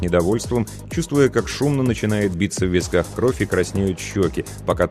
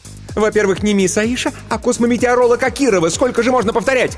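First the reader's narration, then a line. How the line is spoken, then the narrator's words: Angry shout. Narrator (Russian): крикнула она, радуясь возможности выплеснуть гнев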